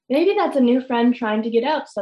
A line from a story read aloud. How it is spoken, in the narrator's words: said Lamont